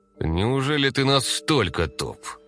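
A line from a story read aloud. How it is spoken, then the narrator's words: Through gritted teeth. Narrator (Russian): процедил Веслав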